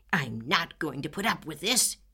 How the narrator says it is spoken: he spluttered

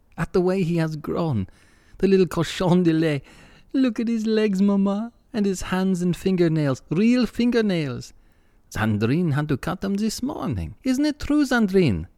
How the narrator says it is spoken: laughed Desiree

